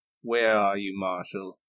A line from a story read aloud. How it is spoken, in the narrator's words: Johnny just turns away and says, under his breath